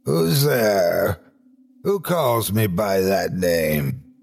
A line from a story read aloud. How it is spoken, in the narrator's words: he hoarsely demanded